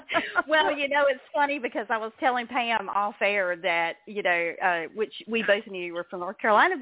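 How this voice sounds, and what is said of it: North Carolina Southern accent. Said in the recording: “I'm a North Carolina native ... I heard that accent”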